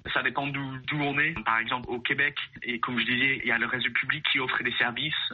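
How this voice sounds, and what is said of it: European French accent. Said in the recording (French): “malgré mon accent galère européen”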